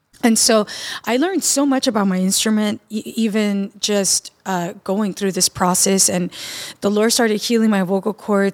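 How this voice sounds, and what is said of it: Raspy voice. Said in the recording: “I do have like a scar on my right vocal cord. And that's why you guys hear this beautiful raspy voice today.”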